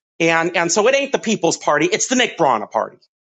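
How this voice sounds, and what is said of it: Yelling, raised angry voice. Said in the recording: “sorry for yelling.”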